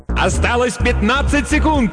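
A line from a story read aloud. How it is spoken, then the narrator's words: Announcer yelling. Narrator (Russian): завопил другой диктор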